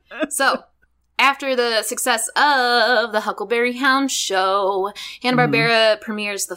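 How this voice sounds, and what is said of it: Usual voice. Nothing is said of it.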